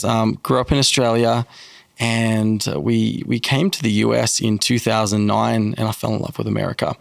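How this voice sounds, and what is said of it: Thick Australian accent. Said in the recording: “I'm Australian, obviously. ... You can hear the accent. ... my accent has got thicker Australian.”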